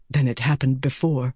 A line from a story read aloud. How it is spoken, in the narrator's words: Rand whispered